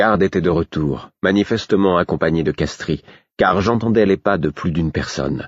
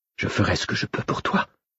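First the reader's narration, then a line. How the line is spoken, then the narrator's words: Whispering. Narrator (French): chuchota-t-elle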